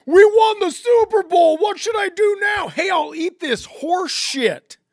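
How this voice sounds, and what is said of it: Impression of a Philadelphia sports fan. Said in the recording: “you sound fucking ridiculous... That's my impression... I was doing the Philadelphia fan that ate the police horse shit in celebration of them winning the Super Bowl”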